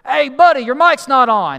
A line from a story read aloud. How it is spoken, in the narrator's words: somebody sitting in the back of the auditorium, sitting in a pew, yells out at me and goes